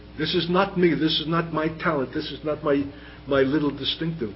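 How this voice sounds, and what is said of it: Brooklyn accent. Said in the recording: “deity in humanity with a Brooklyn accent”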